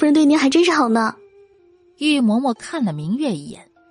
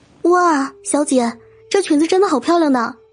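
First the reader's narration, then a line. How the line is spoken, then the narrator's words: Exaggerated admiring exclamation. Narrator (Chinese): 明月夸张的赞叹了一声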